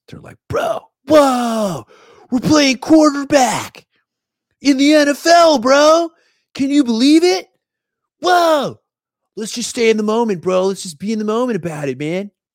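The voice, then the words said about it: Laid-back surfer-dude impression of Sam Darnold. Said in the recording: “like Bill and Ted ... my impression of Sam Darnold”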